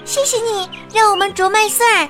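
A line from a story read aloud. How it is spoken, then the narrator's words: Sweet melodious chirping. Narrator (Chinese): 小鸟们婉转的叫着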